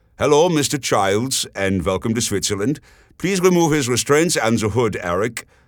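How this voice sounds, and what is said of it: Character voice with German accent. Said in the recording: “said a new voice with a German accent”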